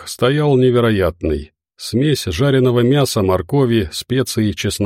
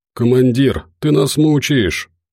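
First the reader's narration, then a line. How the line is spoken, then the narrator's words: Moaning. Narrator (Russian): простонал Громов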